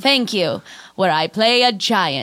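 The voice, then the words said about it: Old Hollywood mid-Atlantic accent. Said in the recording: “I only speak an mid-Atlantic accent.”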